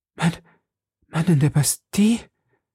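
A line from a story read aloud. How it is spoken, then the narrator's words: Sighing. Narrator (German): seufzte Madame Bonacieux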